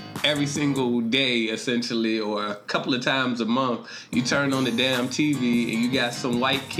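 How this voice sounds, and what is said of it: Usual voice. Nothing is said of it.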